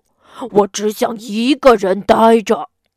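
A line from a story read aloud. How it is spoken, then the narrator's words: Frantic roar. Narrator (Chinese): 大熊发疯似的大吼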